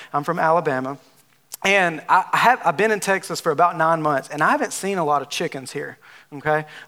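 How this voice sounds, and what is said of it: Southern US drawl. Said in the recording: “I'm from Alabama. If you haven't, if you can't tell by my southern drawl”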